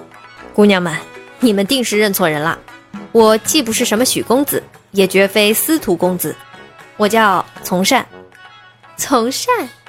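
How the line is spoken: Deep low voice. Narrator (Chinese): 沉声道

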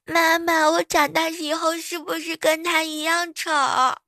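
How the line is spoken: Crying. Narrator (Chinese): 那宝宝一边哭啊

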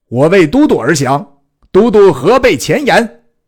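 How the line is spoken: Swaggering loud shout. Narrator (Chinese): 姜维耀武扬威，大叫曰

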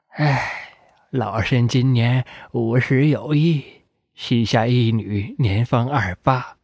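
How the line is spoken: Old woman sighing. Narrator (Chinese): 老太太…先叹了一口气，说

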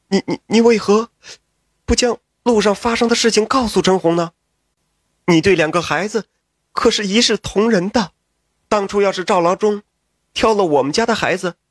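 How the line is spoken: Hurried. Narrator (Chinese): 妻子急忙道

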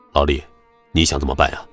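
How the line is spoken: Quiet question. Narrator (Chinese): 他低声问

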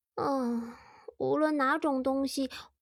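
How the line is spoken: Muttering. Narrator (Chinese): 凯特咕哝道

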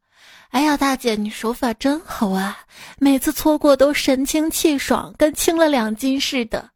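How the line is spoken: Heartfelt exclamation. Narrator (Chinese): 我由衷的感叹

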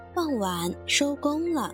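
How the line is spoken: Amazed exclamation. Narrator (Chinese): 其他小动物也惊叹着说

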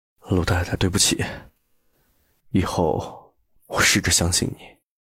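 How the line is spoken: Murmuring repeatedly. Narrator (Chinese): 陆漠北一直喃喃的重复

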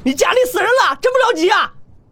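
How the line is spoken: Angry cursing. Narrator (Chinese): 洛尘一脸不甘心，怒骂道

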